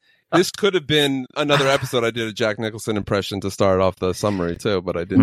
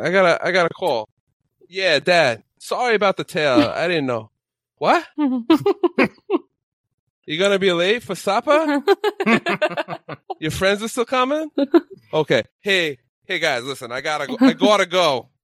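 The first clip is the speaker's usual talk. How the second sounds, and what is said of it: Put-on Boston accent. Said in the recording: “It was a beautiful Boston accent. Absolutely pinnacle. High level. I actually thought I had Marky Mark and the Funky Bunch in my ear.”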